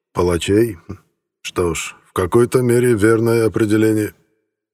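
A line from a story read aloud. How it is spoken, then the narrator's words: Even voice. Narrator (Russian): ровным голосом произнес Сталин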